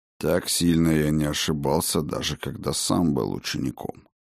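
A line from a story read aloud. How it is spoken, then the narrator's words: Muttered. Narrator (Russian): пробормотал он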